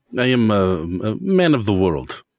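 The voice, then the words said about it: Russian accent. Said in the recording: “I can tell by the accent that you're from the eastern part of Europe. I'm Russian, I'm assuming.”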